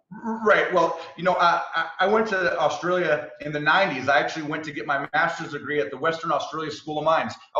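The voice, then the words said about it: American accent. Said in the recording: “you've clearly got a non-Australian accent ... he's got an American accent”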